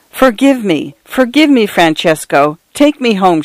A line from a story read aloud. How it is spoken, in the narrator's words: she cried